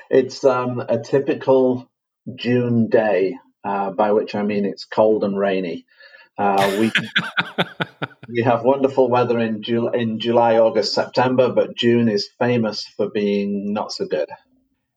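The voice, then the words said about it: Manchester English accent. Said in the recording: “that's not a Vancouver accent you have ... I'm originally from Manchester in England.”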